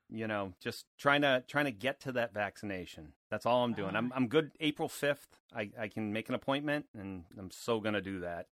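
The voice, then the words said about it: Boston accent. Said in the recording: “It's about to get super Boston up in here. And I don't know about you guys, but I love an accent.”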